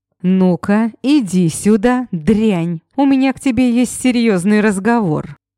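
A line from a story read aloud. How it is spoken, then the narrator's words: Loud shout. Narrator (Russian): Громко выкрикнул бывший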